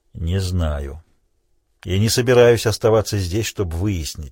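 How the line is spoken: Gloomy. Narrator (Russian): сказал он мрачно

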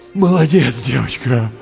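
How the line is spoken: Strained groan. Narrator (Russian): простонал Андрей, с трудом поднимаясь на одно колено

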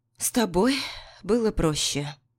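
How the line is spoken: Resigned exhale. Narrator (Russian): обреченно выдохнула Миранда

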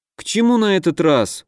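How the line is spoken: Tired sigh. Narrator (Russian): устало вздохнул Дима

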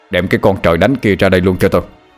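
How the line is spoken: Shout. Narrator (Vietnamese): Ông giáo bình quát lên

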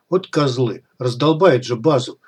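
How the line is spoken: Grumbling. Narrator (Russian): пробурчал Комар

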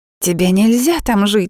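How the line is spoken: Shrill scolding. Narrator (Russian): визгливо выговаривает она

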